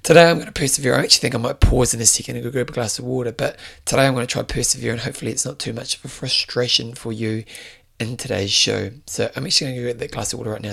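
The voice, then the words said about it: Hoarse, strained voice. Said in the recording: “I am losing my voice ... one of the downfalls of screaming at people for a living”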